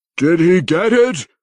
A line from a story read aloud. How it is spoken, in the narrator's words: Ertu roared